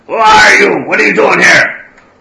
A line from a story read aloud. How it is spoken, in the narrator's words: One of the orcs shouts up